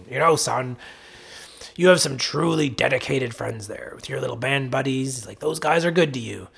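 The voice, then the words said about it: Imitates father's voice. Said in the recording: “my dad has the red green voice ... my dad impression”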